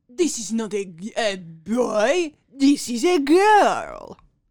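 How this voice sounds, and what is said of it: Put-on French accent. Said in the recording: “that was a great French accent. Much better than our British one earlier.”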